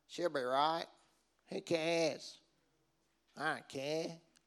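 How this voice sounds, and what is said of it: Put-on broad Australian accent. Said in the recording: “especially in our Aussie culture ... Have I got the accent right?”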